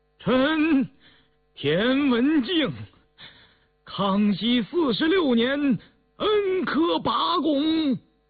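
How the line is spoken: Loud, trembling with excitement. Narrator (Chinese): 田文静心头突突乱跳，心里运着气，激动的声音发颤，大声道

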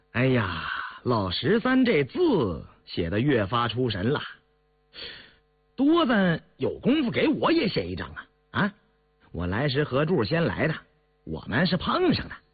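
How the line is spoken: Laughing. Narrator (Chinese): 胤堂笑了

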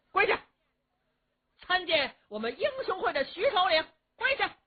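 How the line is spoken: Loud guards' shouting. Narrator (Chinese): 刀斧手高声喊嚷

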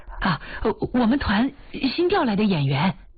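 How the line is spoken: Hurried. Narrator (Chinese): 保卫科的人急忙说

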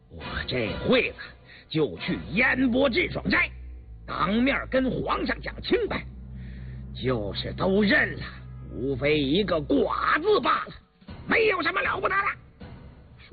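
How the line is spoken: Sudden furious outburst. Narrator (Chinese): 胤禛突然暴怒地…说

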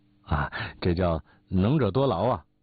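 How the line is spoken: Forced, stiff reply. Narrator (Chinese): 不觉暗暗好笑，嘴里只得硬说

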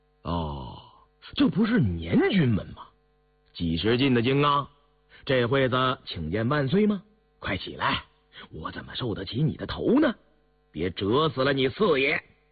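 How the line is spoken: Cool, indifferent. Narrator (Chinese): 胤禛淡淡地说道

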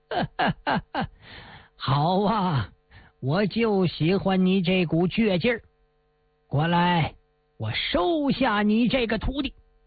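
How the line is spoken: Hearty laugh. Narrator (Chinese): 高斌长老哈哈一笑

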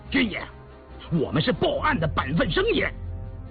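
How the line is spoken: Loud shout, provoked. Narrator (Chinese): 柳仁增见他如此蛮干，便大喊道

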